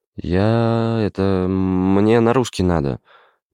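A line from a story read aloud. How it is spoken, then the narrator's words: Timid babbling. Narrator (Russian): Пролепетал он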